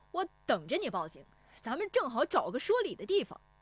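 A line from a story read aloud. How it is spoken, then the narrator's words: Fearless shout. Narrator (Chinese): 石丽华也不怯他 喊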